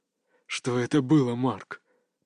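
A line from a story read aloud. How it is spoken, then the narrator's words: Whispered. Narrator (Russian): прошептал Юсуф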